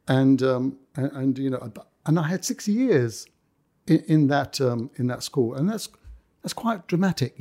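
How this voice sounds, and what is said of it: Cockney accent. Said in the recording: “I've lost my Cockney accent by now, you can understand. ... No, it's still there.”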